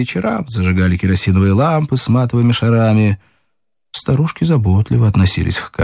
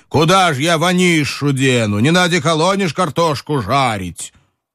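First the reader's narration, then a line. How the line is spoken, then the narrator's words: Distant shout, mannish voice. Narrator (Russian): Софочка кричала мужским голосом из кухни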